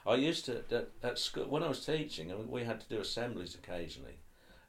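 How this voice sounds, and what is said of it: Norfolk English accent. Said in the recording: “I have a Norfolk accent, mainly because other people tell me I have”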